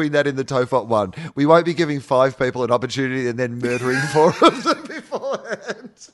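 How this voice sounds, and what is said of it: Usual voice. Nothing is said of it.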